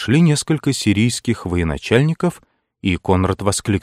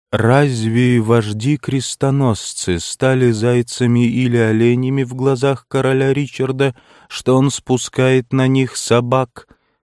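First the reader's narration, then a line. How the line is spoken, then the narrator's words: Grave sepulchral male voice. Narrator (Russian): спросил за могильным голосом гроссмейстер ордена тамплиеров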